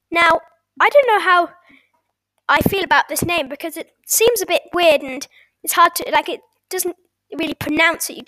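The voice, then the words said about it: British accent. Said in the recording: “I live in the UK, as you can tell from my accent”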